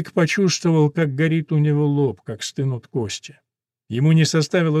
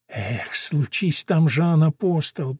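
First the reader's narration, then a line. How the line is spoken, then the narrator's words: Muttering. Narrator (Russian): пробормотал Виланова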